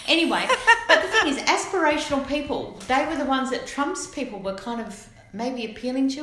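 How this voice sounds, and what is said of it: Broad Australian accent. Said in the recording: “I'm getting broader in my Aussie accent as we're going along.”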